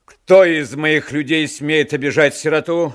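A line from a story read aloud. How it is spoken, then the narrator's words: Shouted. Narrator (Russian): закричал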